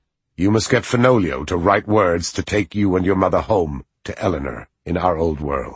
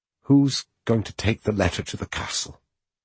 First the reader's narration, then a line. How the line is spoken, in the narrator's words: She asked quietly